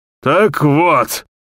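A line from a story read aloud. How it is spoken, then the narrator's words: Hoarse old man shouting. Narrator (Russian): Хрипло выкрикнул старик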